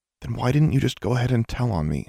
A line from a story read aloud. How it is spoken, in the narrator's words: asked, more quietly